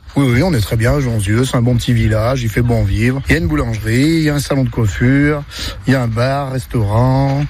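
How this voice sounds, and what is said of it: Slight regional Loire French accent. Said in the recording (French): “un petit accent d'ici... un petit peu, ouais, quand même... ça s'entend... l'accent de la Loire”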